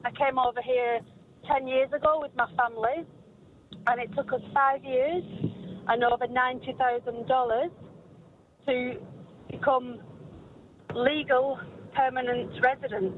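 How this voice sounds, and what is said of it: English accent. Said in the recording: “I'm actually from England. You can probably tell from my accent.”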